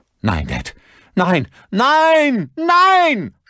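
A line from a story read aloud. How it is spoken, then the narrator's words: Screaming. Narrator (German): schrie Lucas, als ihm klar wurde, was passieren würde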